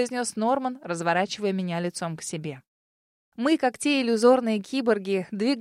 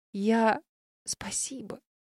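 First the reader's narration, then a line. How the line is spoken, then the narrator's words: Hoarse. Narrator (Russian): сипло сказала я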